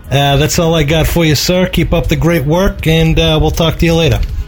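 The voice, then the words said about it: New York accent. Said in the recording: “I like this guy's New York accent.”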